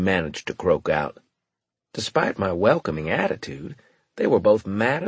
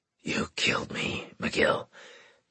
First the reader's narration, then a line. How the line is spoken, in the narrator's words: Graves snarled at me